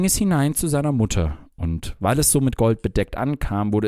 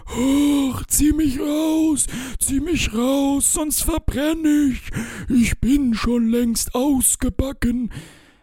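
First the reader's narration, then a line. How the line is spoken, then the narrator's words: Bread screaming. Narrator (German): schrie das Brot wieder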